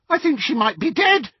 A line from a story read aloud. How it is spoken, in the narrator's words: he shouted with delight